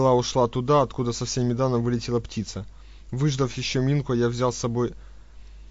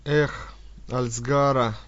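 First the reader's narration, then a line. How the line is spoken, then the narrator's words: Dreamy sigh. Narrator (Russian): мечтательно вздохнул Бамут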